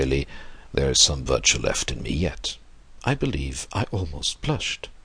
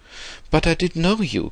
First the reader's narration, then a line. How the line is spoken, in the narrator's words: cried the bonhomme